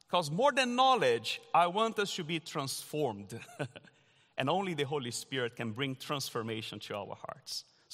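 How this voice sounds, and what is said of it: Strong Brazilian accent. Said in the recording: “a Brazilian with this strong accent”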